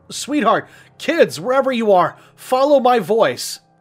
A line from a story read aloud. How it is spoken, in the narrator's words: screamed